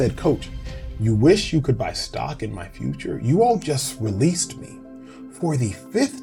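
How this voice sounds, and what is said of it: Usual voice. Nothing is said of it.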